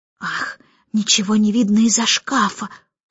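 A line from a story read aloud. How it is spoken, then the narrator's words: Muttered. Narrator (Russian): пробормотала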